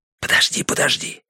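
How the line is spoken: Hissing. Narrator (Russian): зашипел я

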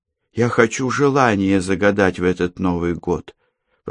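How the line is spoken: Choked-up whisper. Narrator (Russian): прошептала девочка, сглотнув подступивший комок к горлу

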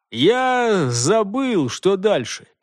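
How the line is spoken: Mumbled. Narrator (Russian): промямлил Хольгер

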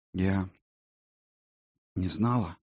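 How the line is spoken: Strained exhale. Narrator (Russian): она с усилием выдохнула

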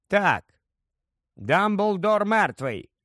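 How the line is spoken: Calm. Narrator (Ukrainian): спокійно сказав Гаррі

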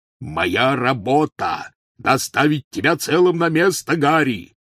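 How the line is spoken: Roaring. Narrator (Russian): взревел Хагрид

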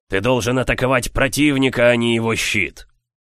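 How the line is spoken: Warrior's growl. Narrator (Russian): воин прорычал

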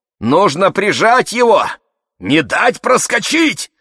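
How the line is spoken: Old man yelling. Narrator (Russian): заорал дед

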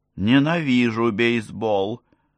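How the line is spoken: Mumbled. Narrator (Russian): пробормотала Саша

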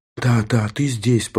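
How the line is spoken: Whisper. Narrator (Russian): прошептала она

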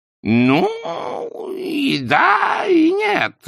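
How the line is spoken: Strained, forced out. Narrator (Russian): выдавил Хаккардли, ушедший в трясину уже по колени

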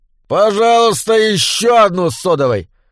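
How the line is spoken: Pointedly loud. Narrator (Russian): подчеркнуто громко заказал Доус

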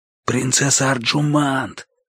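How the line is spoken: Whispered call. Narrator (Russian): позвал я шепотом

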